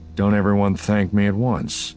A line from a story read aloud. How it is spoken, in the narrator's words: Han said dryly